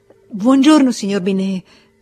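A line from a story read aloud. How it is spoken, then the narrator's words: Stammered. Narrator (Italian): balbettò ancora lei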